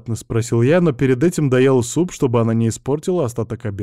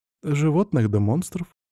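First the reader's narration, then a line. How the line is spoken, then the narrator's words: Cautious, barely audible. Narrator (Russian): осторожно ответила она, но еле слышно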